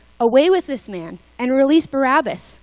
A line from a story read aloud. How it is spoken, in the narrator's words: they all cried out together